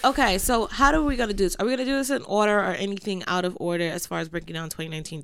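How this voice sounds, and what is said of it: Congested, sniffly voice from a cold. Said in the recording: “if you hear me sniffling, I'm also I have a cold and I'm sick”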